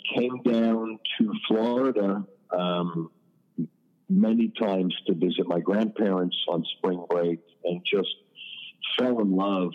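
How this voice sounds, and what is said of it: Queens New York accent. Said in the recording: “did you start out in Queens? Because I definitely am recognizing what I would not describe as a Miami accent.”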